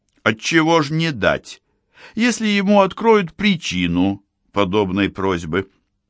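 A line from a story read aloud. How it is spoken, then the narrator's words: Timid rambling. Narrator (Russian): робко плел что-то этому глупцу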